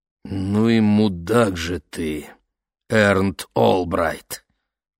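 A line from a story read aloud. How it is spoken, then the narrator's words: Hissed. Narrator (Russian): прошипел мистер Уокер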